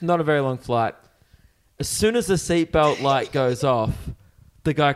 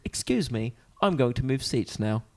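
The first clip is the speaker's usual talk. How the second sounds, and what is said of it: Thick British accent. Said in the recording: “he had like a real thick British accent”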